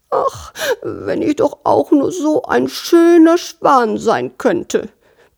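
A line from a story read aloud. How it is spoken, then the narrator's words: Squeaky little sparrow. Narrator (German): piepste der kleine Spatz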